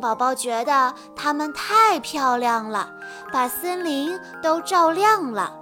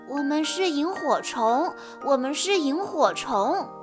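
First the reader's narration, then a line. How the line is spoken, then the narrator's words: Soft whisper. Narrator (Chinese): 一闪一闪的东西小声地说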